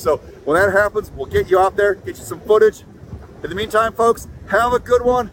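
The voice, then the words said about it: Regional South Coast accent. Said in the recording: “he is from the South Coast. ... That's why he has an accent.”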